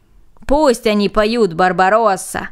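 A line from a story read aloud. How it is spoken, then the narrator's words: Group shouting. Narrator (Russian): закричали остальные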